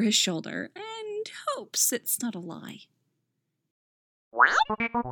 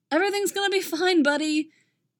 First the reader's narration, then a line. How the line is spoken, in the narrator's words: Poe shouts